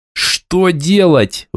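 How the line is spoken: Howl. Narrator (Russian): взвыл я

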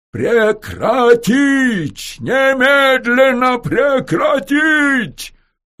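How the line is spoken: Loud booming bass shout. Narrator (Russian): Рогачев орал зычным басом, которым, бывало, перекрикивал тысячные митинги

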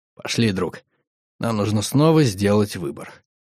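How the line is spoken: Quiet. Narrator (Russian): Тихо сказал

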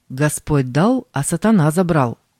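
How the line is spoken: Old man's loud objection. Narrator (Russian): один старец громко возразил

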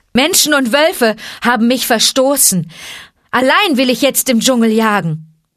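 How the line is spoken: Called out. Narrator (German): rief Mowgli

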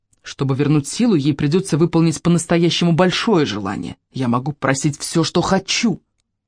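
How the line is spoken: Muttering. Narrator (Russian): он забормотал

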